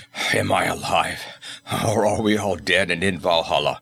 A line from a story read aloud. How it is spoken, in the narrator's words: gasped he